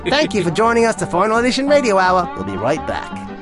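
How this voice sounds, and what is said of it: Imitates another person's voice. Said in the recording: “fake Tony Hendra sometimes appears, and it's me doing this. It's the best Tony Hendra impersonation”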